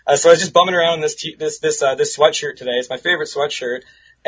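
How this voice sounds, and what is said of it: Slightly raspy voice. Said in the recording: “I'm getting over a little bit of a cold ... my voice is a little raspy.”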